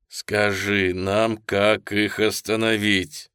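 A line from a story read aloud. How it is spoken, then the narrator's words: Plain. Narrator (Russian): сказал Чавес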